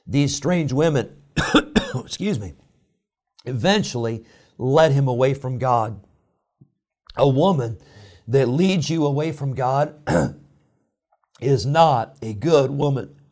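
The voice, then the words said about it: Choked-up, emotional voice. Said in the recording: “I'm getting all choked up here”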